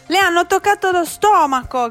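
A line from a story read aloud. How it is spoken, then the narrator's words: Shouting. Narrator (Italian): gridava Mariuccia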